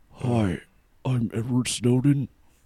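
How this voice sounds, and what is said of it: Imitates another person's voice. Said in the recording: “do my best Snowden impression”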